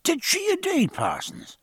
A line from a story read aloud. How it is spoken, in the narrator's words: cried Stephen